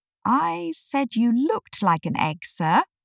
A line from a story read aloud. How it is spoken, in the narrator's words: Alice gently explained